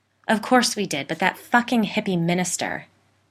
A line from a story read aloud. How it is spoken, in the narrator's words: Michael spat